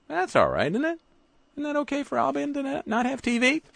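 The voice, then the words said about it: Sudden high falsetto voice. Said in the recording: “I went falsetto on you.”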